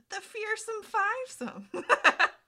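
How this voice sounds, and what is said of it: Impression of Sokka. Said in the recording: “That was a good shock impression.”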